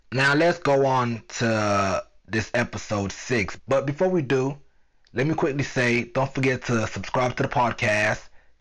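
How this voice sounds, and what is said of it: Sick, sore-throated voice. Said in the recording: “I might sound a little bit different. That's because right now I'm I'm, kind of sick. ... I have a sore throat. Uh, I haven't been sleeping like I should ... so my voice might sound a little bit different. ... my voice is not really on point.”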